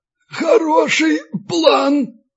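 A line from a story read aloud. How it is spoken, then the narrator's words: Hoarse wheeze. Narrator (Russian): просипел белорус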